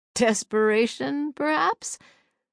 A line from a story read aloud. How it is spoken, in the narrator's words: Clancy suggested with a chuckle